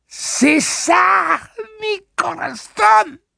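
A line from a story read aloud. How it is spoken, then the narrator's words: Exclaiming, choking, laughing, coughing. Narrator (French): s'écria Réa, qui manqua s'étouffer sous un afflux de flegme, son rire le disputant à sa toux grasse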